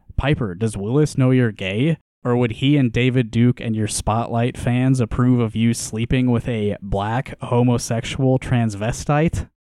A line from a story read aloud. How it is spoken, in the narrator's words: Still laughing, I said